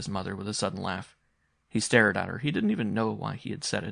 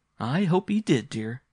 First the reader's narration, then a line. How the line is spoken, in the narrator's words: she said again with a laugh, but rather bitter